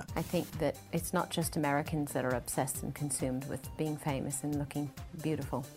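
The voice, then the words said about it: Fake-sounding British accent. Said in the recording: “you can see her actually develop a British accent ... And that sounds really fake.”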